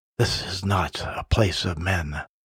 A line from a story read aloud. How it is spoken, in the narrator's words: The satyr said quietly